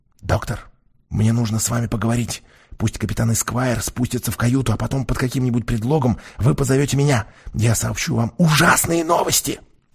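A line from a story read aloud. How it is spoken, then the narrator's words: Whisper. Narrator (Russian): я прошептал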